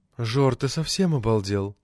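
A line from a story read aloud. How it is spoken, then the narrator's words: Sad question. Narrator (Russian): печально спросила Арина, технический секретарь парткома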